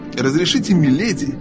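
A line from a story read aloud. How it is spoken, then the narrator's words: Cold, polite. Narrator (Russian): холодно и учтиво начал принц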